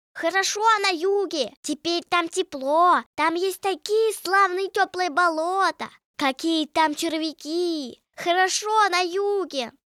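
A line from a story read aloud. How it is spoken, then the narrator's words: Deafening shouting. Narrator (Russian): Они так кричали, что почти оглушили лягушку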